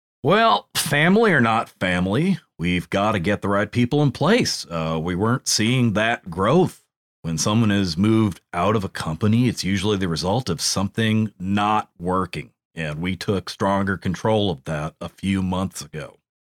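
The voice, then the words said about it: Subtle imitation of another person's voice. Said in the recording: “It's a very subtle, nuanced, like method acting version of Bruce Pritchard.”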